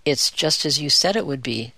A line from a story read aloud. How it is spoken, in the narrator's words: said the cat in a quiet voice